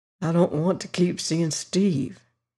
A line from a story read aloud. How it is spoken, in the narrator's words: he muttered